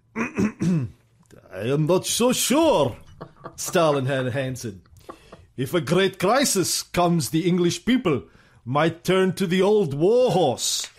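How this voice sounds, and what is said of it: Put-on Russian accent. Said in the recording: “Can you do that in a Russian accent? Can you do it in a Russian accent, please?”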